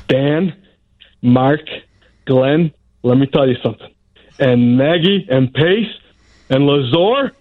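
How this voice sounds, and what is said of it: Imitates another person's voice. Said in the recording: “my impression of you, people have thought I've actually recorded the radio and played it back for them ... We're getting an OB impression.”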